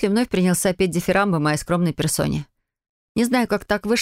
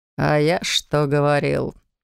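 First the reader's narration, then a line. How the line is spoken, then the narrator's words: Deep bass voice. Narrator (Russian): пробасил фарфоровый соблазнитель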